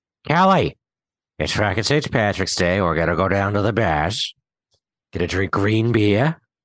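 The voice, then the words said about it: Put-on Boston accent, dropped R's. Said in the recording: “You've obviously never been to Boston ... if you're doing that accent. You can't do R's.”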